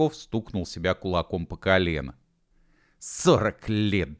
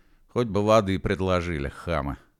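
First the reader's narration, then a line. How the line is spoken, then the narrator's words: Grumble. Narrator (Russian): проворчал Машков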